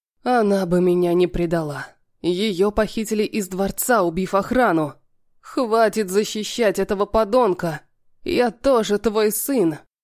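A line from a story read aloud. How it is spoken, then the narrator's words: Growled through teeth. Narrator (Russian): Прорычал сквозь зубы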